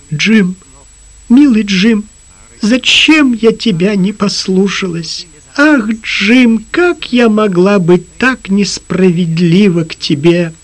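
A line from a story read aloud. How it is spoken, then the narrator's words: Sobbing, stammering. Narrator (Russian): Лиззи всхлипнула и, запинаясь, сказала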